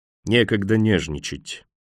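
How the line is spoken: Gloomy, to himself. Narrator (Russian): мрачно сообщил он сам себе

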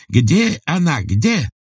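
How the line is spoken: Frantic yell. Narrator (Russian): завопил японец

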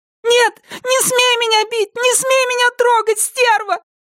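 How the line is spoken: Shouting. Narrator (Russian): Закричала она

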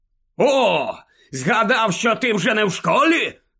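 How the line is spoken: Breathless bark. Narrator (Ukrainian): гаркнув Скрімджер, важко дихаючи в обличчя Гаррі

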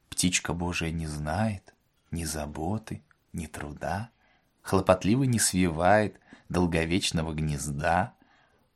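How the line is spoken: Beaming whisper. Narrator (Russian): Отец Федор, лучезарно улыбаясь, прошептал

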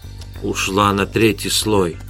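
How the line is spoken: Whispered. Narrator (Russian): прошептал Эдгар

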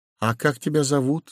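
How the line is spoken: Small trembling voice. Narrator (Russian): спросил Удалов дрогнувшим голоском

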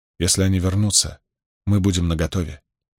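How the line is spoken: Soft. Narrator (Russian): мягко произнесла она

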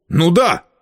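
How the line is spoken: Angry. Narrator (Russian): сердито сказал Геральт

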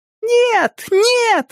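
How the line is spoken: Delighted squealing. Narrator (Russian): с восторгом взвизгивали они

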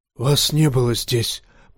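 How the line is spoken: Hoarse rasp. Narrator (Russian): прохрипел мейстер

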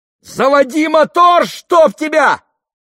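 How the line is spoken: Shouted. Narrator (Russian): крикнул кто-то

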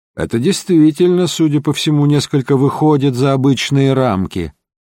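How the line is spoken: Calm remark. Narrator (Russian): спокойно заметил Холмс

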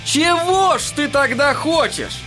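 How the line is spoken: Shouting. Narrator (Russian): крикнул Эдди

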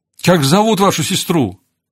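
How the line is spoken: Shouted. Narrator (Russian): Ноэль крикнула ему

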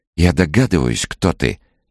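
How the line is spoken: Cheerful whisper. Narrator (Russian): весело прошептала она

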